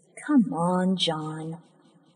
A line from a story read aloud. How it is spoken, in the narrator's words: Gently ... saying